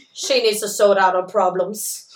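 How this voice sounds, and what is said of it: Attempted English Cockney accent. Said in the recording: “Is that your English accent? ... That's, like, more Cockney. Yeah, that's more cop. More Cockney.”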